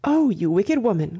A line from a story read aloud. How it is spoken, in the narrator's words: cried Miss Bartlett